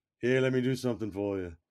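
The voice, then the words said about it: Imitates another person's voice, badly. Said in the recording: “my bad Ringo voice impression”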